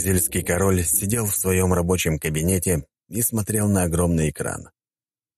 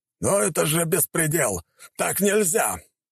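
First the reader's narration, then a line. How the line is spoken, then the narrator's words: King yelling. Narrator (Russian): орал колумбийский король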